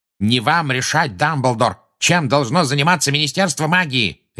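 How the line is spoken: Furious bark. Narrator (Russian): рявкнул Фадж

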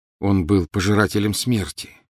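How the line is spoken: Plain. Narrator (Russian): сказал Гарри

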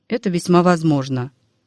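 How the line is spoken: Calm father. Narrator (Russian): спокойно промолвил отец

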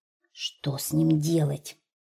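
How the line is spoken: Quiet bear cub question. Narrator (Russian): тихо спросил у ежика медвежонок

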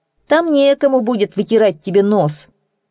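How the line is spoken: Mocking. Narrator (Russian): насмешливо скривив губы, добавил

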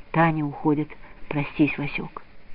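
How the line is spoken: Soft whisper. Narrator (Russian): тетя Дуня и тихо шепнула

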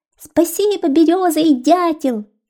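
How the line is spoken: Squeaky bird chorus. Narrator (Russian): запищали синички белощекие, долгохвостые и хохлатые

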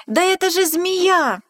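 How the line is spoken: Mouse shouting. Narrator (Russian): мышонок закричал

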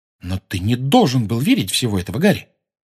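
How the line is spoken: Sharp. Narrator (Russian): резко сказала

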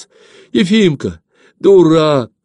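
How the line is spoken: Frightened cry. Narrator (Russian): вскрикнула испуганная Верка

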